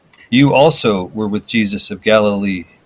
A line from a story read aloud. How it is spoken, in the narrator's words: she said